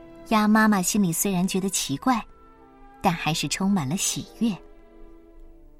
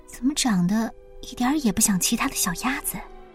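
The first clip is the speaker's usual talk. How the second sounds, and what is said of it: Quiet muttering voice. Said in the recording (Chinese): “小声的嘀咕”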